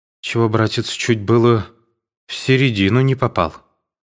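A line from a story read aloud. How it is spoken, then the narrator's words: Trembling voice. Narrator (Russian): отвечал дрожащим голосом Александр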